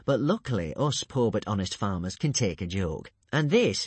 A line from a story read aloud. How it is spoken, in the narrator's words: said Alvin, smiling happily once more